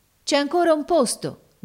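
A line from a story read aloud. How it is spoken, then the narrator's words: Sailors shouting. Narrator (Italian): gridarono allora i marinai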